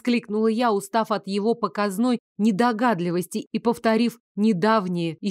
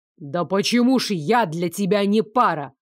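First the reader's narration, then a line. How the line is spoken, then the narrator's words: Angry bark. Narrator (Russian): в свою очередь рявкнул Лоренс, от злости даже забыв про официальный тон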